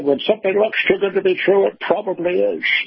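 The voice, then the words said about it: Sean Connery impression. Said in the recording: “what passes as my Sean Connery impersonation ... Was that Sean?”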